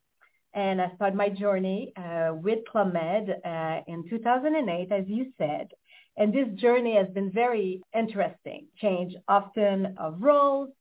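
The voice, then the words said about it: Canadian accent from Montreal, Quebec. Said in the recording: “as you probably can hear in my accent, I'm Canadian born, so born and raised in Montreal, Quebec”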